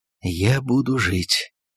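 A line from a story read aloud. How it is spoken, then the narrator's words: Muffled tearful whisper. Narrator (Russian): прошептал он в подушку, заплакал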